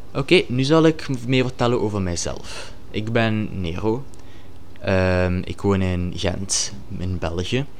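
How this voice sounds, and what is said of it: Ghent Flemish accent, unpronounced R. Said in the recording (Dutch): “het Gentse accent, omdat ik de R niet kan uitspreken”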